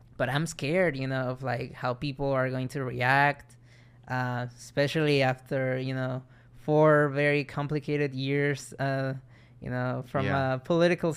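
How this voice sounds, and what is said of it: Mild foreign accent. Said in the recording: “I'm very self-aware of my accent. ... It's not as thick as it used to be, but still, you know, sometimes you know, people notice. They ask me, oh, where are you from?”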